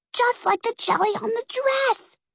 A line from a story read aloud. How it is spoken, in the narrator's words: hissed Peggy